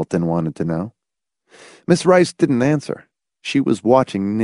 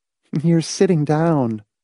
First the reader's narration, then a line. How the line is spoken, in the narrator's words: Marcia said soothingly